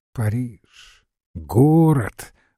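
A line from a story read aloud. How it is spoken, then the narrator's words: Meek warning exclamation. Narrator (Russian): воскликнул с кротким предостережением Евангел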